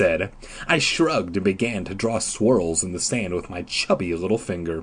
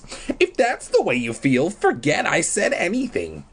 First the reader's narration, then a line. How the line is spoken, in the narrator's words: I said in my squeaky little boy voice